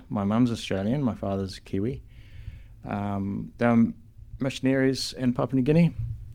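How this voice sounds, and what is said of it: Mixed Kiwi accent. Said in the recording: “You've got a Kiwi accent... Mixed... Weird accent.”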